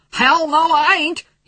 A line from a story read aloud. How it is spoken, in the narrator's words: he yelled